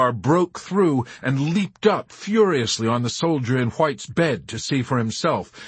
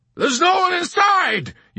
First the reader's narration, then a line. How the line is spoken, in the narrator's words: yelled Hungry Joe